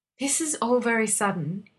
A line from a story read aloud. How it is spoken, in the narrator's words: he breathed